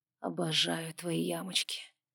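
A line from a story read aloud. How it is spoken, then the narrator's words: Male whisper. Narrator (Russian): шепнул он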